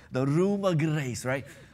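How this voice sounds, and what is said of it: Attempted Scottish accent. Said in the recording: “try that Scottish accent he uses”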